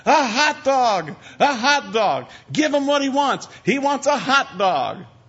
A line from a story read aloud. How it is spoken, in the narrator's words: they're all yelling at the waiter